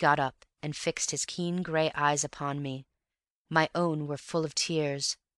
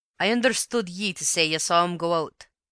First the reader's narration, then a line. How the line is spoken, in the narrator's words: said he sternly